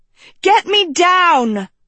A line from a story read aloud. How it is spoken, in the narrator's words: Agatha yelled